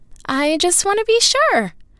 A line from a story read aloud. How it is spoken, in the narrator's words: said Cecilia, her tone rising a bit